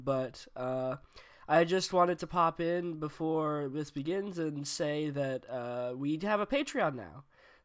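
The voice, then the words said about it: Hoarse, sick-sounding voice. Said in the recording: “Pardon my voice, I am still getting over a cold”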